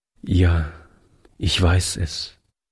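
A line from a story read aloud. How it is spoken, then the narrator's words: Sad young man. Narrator (German): entgegnete der junge Mann traurig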